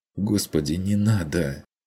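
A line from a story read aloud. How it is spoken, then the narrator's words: Tearful whispered plea. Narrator (Russian): плачущим шепотом попросила Мария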